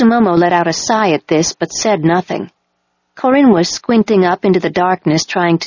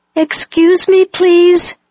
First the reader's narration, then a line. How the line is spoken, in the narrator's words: called out